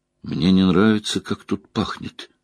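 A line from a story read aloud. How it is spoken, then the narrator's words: Muttered. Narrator (Russian): пробормотал Перин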